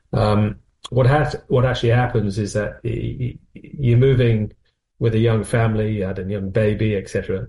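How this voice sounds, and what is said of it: Northwest English accent. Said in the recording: “you may lean for my accent, I was from the northwest”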